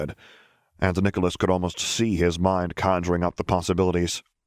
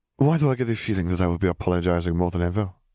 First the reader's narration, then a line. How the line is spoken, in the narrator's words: She sighed